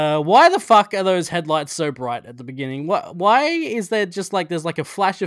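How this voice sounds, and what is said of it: Usual voice. Nothing is said of it.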